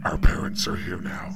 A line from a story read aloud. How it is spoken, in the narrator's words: that satisfied growling voice proclaiming